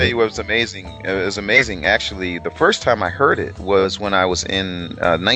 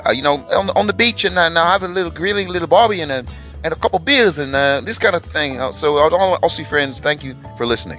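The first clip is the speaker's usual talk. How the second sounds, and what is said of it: Put-on Australian accent, sounding South African. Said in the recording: “You kind of sounded South African there.”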